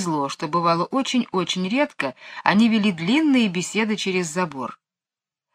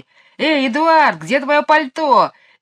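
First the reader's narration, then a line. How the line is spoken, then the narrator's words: Shouted, mimicking shrill high voice. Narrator (Russian): крикнул Майкл, стараясь передразнить высокий визгливый голос мисс Ларк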